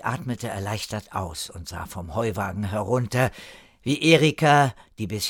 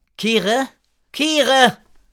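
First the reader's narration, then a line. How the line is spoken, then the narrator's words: Calling while leaving. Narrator (German): rief Erika beim Weggehen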